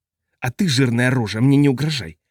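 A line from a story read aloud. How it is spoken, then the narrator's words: Hissing. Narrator (Russian): прошипел Ритий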